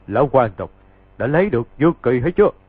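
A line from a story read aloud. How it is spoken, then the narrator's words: Loud laughter, from outside. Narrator (Vietnamese): bên ngoài hang có kẻ cười to dán cả tai rồi nói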